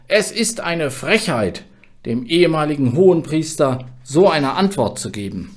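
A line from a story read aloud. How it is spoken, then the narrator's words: Servant bellowing. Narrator (German): Ein Diener brüllte ihn an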